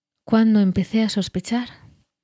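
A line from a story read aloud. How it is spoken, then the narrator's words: Murmured, reminiscing. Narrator (Spanish): musitó Gandalf, recordando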